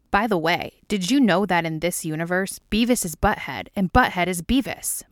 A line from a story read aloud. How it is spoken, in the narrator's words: Mulder says, his voice ringing with nerdy excitement